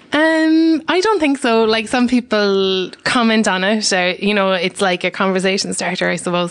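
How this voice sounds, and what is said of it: Irish accent. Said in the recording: “your French accent ... I'm just Irish”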